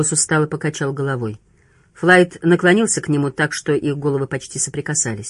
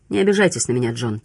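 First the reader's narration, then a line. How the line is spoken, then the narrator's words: Quiet speech. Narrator (Russian): тихо проговорил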